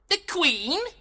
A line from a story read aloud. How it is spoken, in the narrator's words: Puck cried in surprise